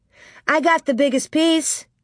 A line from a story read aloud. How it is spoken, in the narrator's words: Nellie shouted